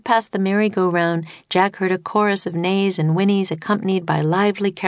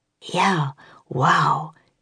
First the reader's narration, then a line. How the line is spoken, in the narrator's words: breathed Jack